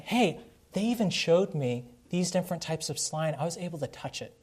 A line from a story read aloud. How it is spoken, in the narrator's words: whispering